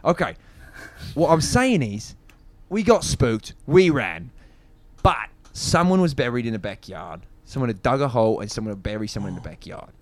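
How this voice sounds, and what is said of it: Put-on British accent. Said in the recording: “I'm in character. I have to stay in this accent. ... everyone should be British ... You're going to learn an accent and it's going to be a British one. ... This is holdover from my last play, which also required me to be British.”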